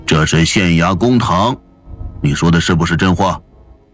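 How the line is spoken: Stern sharp question. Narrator (Chinese): 陶令厉声问

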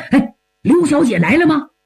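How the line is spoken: Eager, hurried question. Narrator (Chinese): 急不可待，急忙问

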